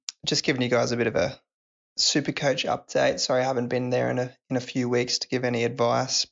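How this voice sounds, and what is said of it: Sick-sounding voice. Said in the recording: “I'm a bit crook at the moment, so sorry about my voice.”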